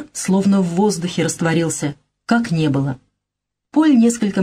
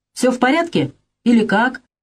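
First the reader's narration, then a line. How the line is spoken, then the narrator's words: Shouted into ear. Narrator (Russian): прокричал ему в ухо Шифер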